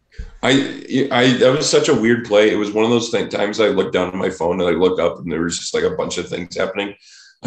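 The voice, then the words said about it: Congested, sick-sounding voice. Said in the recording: “there's some weird sinus bugs going around right now. You can probably even hear it in my voice”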